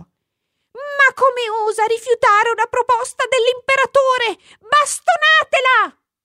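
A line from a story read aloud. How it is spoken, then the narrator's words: Minister shouting. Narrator (Italian): Il ministro gridò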